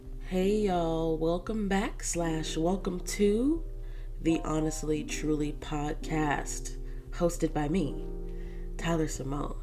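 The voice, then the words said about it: Slightly weird, dry-throated voice. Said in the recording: “If I sound a little weird ... My throat, it's been a little bit dry ... we do have a little bit of a weird dry throat situation happening”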